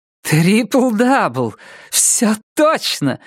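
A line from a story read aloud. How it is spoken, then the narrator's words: Exclaimed. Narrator (Russian): воскликнула Иви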